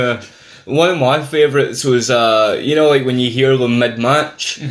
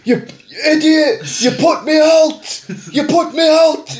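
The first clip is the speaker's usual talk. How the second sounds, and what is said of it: Shouting impression, odd accent and tone. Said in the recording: “Bulldog's weird accent and his weird sort of vocal tone. And Owen puts him out and he's shouting”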